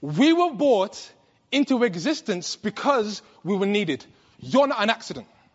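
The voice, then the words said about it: British accent, rapid speech. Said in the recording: “I'm from England. ... my British accent ... I speak rapidly.”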